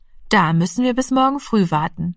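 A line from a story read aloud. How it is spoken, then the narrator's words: Plain. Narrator (German): sagte die Mutter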